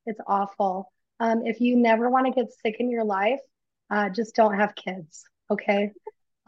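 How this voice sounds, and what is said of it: Sick, rough-sounding voice. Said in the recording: “my voice sounds a little jacked up. I have been so sick ... my voice is just ... It sounds different than”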